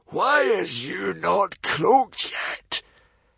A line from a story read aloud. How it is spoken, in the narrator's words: hissed the hairy, scary librarian in surprise